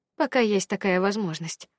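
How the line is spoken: Sighing. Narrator (Russian): вздохнула я

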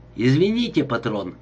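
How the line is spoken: Plain. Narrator (Russian): ответил он

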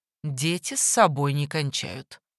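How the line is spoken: Dry remark. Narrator (Russian): Чиано заметил сухо

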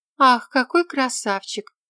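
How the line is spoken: Admiring sigh. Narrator (Russian): вздохнула Элла

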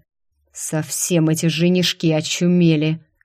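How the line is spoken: Angry demonic hiss. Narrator (Russian): Злобно прошипел демонюга

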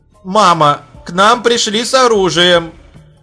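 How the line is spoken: Shouted into ear. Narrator (Russian): прокричала ей в ухо женщина

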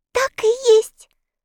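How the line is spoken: Exclamation. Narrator (Russian): воскликнула Энни

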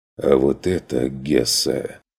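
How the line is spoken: Hoarse remark. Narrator (Russian): заметил тот сипло

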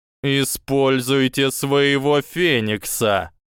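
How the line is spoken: Growling. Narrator (Russian): прорычал профессор Квирл

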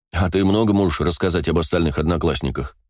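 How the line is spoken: Snorting. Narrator (Russian): хмыкнул я

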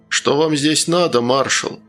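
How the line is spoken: Calm question. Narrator (Russian): спокойно спросил незнакомец

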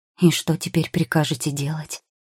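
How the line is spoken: Sighing. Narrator (Russian): Алигьера вздохнул

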